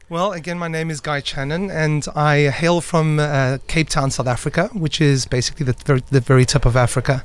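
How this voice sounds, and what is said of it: Noticeable foreign accent. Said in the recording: “you've got that lovely accent”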